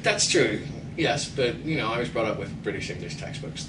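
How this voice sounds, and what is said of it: Irish accent. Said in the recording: “I hear some Irish accent there”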